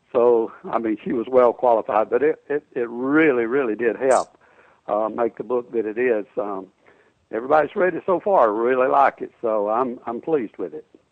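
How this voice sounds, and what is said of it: Texas-sounding American accent. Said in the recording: “You have a Texas accent.”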